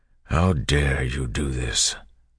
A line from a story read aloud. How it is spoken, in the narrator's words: Marsh asked quietly